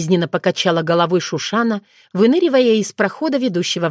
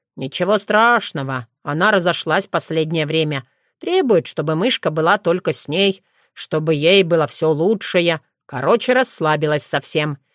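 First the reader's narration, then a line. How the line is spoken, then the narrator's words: Grumbling. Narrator (Russian): разворчался Тишинор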